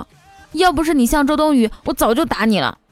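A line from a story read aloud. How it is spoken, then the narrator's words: Suppressed anger. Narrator (Chinese): 他隐忍着怒气说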